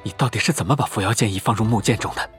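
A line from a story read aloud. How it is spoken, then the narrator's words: Hoarse voice. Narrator (Chinese): 方才还振振有词的程潜哑声了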